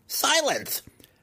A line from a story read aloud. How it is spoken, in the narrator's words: Massage screamed